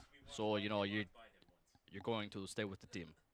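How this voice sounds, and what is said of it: Put-on imitation of an accent. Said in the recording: “That's my accent.”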